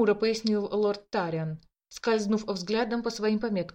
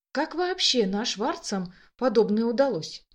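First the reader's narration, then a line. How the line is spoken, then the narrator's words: Muttering. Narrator (Russian): пробормотал Дамиан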